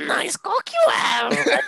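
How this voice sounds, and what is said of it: Raspy Yoda character impression. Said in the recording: “do your Yoda impression... If Yoda and Marge Simpson had a baby... My throat's raspy”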